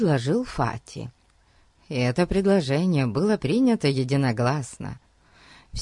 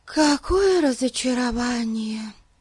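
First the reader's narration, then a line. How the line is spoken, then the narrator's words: Sigh. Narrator (Russian): вздохнула Дейзи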